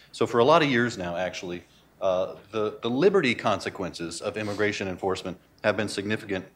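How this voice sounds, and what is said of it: Usual voice. Nothing is said of it.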